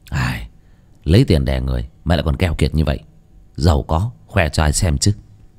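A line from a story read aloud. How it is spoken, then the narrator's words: Muttering. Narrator (Vietnamese): hắn lầm bầm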